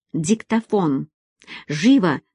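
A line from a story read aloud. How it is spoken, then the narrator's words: Urgent whisper. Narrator (Russian): прошептала Нина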